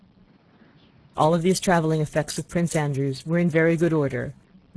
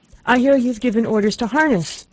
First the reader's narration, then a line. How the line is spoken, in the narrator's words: cried, panting